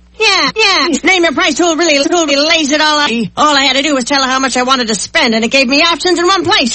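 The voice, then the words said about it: 1930s gangster voice. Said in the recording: “my impression of a 1930s gangster”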